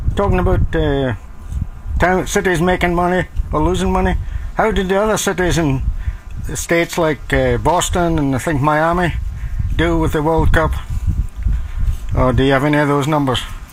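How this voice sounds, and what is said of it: Scottish accent. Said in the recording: “Was that a Scottish accent? ... I kind of love that. ... Yeah, that was nice.”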